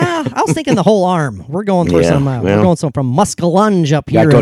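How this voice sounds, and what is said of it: Usual voice. Nothing is said of it.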